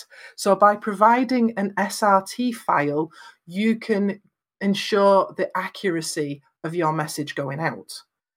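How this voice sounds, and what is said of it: British accent. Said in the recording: “coming from the UK, it's not geared for my accent. It's geared for an American accent”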